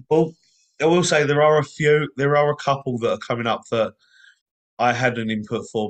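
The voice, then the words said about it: Strained, tired voice. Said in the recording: “I'm actually glad my voice held out for it as well ... my voice is now starting to struggle a little bit.”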